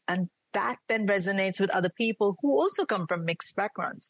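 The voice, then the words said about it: Mixed Indian and British accent. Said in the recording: “yes, I do sound Indian... with my Indian, British, Mumbai, Bangalore, Kerala accent,”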